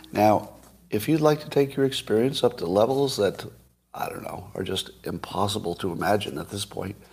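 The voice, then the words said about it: Raspy, quiet voice from laryngitis. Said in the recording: “my voice is a little raspy, got a little laryngitis. ... This is as loud as I can get.”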